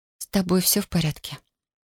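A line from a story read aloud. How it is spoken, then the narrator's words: Female whisper. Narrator (Russian): прошептала она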